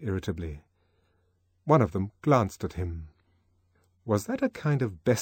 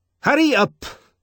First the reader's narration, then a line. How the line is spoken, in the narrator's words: he shouted more loudly, and there was an ugly rasp in his voice